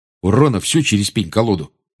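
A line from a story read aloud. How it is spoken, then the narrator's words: Grumble. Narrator (Russian): буркнул Джордж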